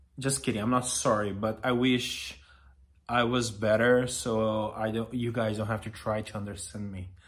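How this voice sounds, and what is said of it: Brazilian accent in English. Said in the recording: “I'm so sorry for my accent ... I'm Brazilian”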